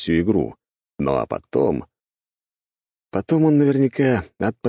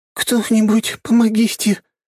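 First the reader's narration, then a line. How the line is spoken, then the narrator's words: Trembling whisper. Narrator (Russian): Дрожащим голосом зашептала Киалта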